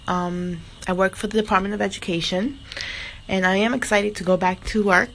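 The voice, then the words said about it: Congested voice from a cold. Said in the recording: “I have a cold, congestion”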